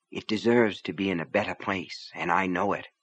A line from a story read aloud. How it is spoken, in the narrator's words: she said softly to Raider